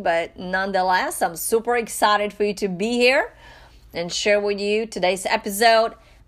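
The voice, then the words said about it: Slightly raspy voice. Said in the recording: “I'm a little bit under the weather today and my voice is a little raspy,”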